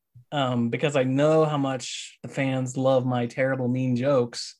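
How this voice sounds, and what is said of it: Very sarcastic tone. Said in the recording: “saying that very sarcastically.”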